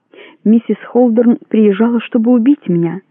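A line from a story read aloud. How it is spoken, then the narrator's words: Calm, confident young woman. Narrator (Russian): спокойно, но с уверенностью сказала девушка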